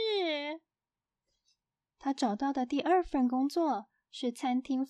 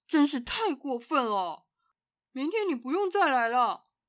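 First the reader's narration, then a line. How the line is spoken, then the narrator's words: Angry roar. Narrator (Chinese): 银行经理气得吹胡子瞪眼，大声的吼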